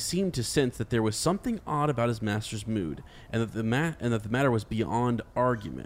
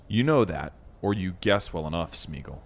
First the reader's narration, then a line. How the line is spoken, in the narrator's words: he said quietly and sternly